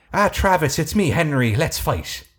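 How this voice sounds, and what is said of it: Put-on Irish brogue accent. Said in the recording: “He has an Irish accent ... full-on brogue accent”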